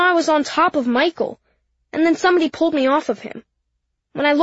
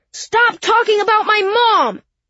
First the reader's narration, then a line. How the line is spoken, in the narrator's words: I heard myself yell